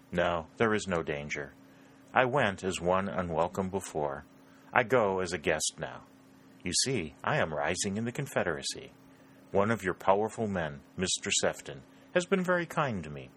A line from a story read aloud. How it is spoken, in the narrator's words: replied in a slightly humorous tone